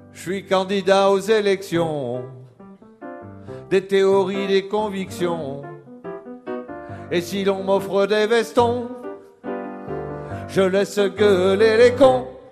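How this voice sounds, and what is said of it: Southern French accent when singing. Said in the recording (French): “quand je chante, j'ai l'accent du midi”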